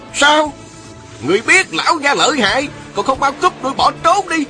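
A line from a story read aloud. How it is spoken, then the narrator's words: Rough scolding shout. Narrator (Vietnamese): Một giọng thô lỗ quát mắng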